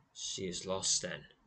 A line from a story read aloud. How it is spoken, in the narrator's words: he says coldly